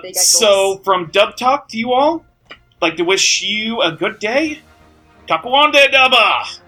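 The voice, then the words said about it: Maine accent. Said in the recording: “your Mainer accent right there... That's your Mainer accent”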